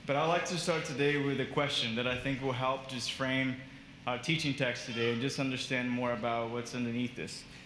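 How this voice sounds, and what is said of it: Thick Brazilian accent. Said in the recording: “my probably thicker than usual Brazilian accent”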